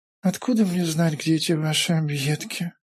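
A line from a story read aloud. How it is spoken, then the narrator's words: Sleepy mumble. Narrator (Russian): Сонно пробормотал удобно улегшийся Файтве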